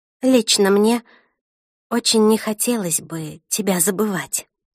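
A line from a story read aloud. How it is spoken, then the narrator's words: Sighed. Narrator (Russian): вздохнула я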